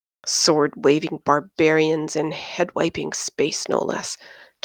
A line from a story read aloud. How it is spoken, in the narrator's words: Thomas grumbled